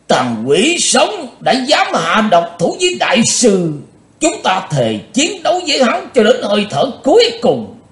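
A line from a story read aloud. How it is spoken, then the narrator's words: Grim roar. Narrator (Vietnamese): Thành Dương đạo nhân mặt lạnh như đất, ông ta gầm to lên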